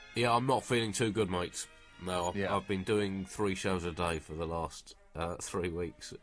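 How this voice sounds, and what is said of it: Voice sounds worn out and unwell. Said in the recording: “you sound terrible”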